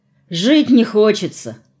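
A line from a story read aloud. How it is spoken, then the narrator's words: Glum explanation. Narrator (Russian): уныло пояснил Виталий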